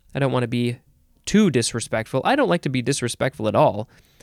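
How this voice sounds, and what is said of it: Usual voice. Nothing is said of it.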